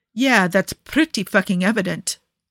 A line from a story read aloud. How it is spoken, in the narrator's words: Niccolo sneers